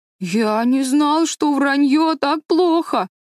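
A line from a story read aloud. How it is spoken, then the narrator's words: Sobbing. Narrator (Russian): рыдал Дэви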